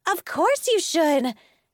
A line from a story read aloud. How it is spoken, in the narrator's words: Elizabeth exclaimed